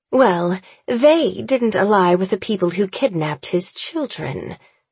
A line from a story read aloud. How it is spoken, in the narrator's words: she says coolly